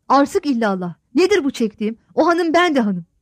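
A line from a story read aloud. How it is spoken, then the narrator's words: Angry shouting to oneself. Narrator (Turkish): Nazikler hiddetlenip kendi kendine söyler gibi bağırarak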